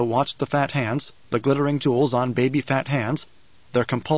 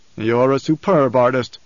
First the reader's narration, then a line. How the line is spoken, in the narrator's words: the Baron growled